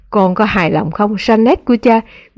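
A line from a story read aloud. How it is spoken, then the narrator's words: Tender whisper. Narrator (Vietnamese): ông cúi xuống con gái và thì thào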